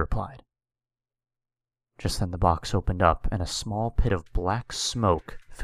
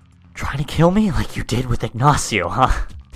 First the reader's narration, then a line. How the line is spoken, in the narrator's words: Jeff said, as both legends were grunting and using force to outdo each other